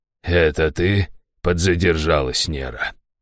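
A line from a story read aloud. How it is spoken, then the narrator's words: Snorting. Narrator (Russian): хмыкнул Раштау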